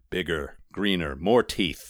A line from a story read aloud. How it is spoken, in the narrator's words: rumbled Enghamrad